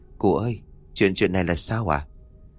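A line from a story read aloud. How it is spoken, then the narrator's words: Soft question. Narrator (Vietnamese): khẽ giọng hỏi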